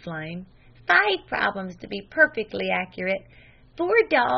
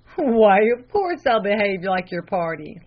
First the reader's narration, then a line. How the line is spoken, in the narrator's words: laughed the lay reader